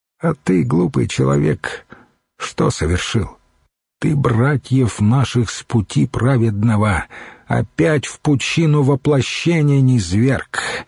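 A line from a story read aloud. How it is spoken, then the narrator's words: Suddenly ordinary voice. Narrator (Russian): добавил внезапно обычным голосом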